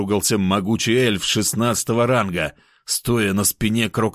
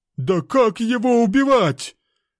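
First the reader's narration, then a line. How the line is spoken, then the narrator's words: Shouted, thin moose-man. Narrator (Russian): выкрикнул худой человек-лось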